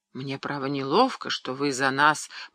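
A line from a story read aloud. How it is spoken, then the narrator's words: Mumbling. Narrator (Russian): пробормотал Шарль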